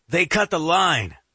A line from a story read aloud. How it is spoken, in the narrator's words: Elliot shouts as he slams his fist into the desk